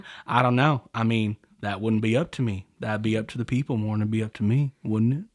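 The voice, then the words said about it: Poor imitation of another person's voice. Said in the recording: “That's a terrible Matthew McConaughey impression... it was subpar... Subpar. It's terrible.”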